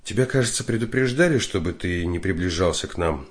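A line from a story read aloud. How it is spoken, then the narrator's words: Sighing. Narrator (Russian): вздохнула она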